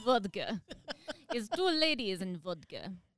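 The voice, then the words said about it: Put-on Russian accent. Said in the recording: “Is that your Russian accent? ... That's your Russian ... accent?”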